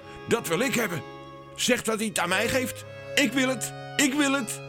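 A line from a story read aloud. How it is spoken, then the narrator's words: Prince calling out. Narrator (Dutch): De zoon van de koning, Lodewijk, riep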